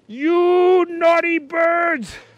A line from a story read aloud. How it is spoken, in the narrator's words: shouted Detective Inspector Picklesworth